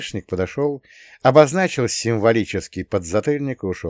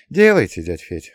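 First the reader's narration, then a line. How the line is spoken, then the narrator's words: Sighing. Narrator (Russian): вздохнул я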